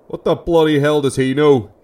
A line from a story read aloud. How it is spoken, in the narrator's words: He roared back, showering his son's face with spittle